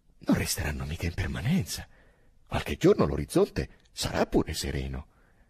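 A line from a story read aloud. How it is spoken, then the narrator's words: Incredulous exclamation. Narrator (Italian): esclamò Drogo incredulo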